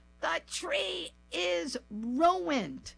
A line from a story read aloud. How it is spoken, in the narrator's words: Mom opened her eyes wide and yelled